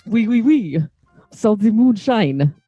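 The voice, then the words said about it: Bad put-on French accent. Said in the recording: “worst fucking French accent ever”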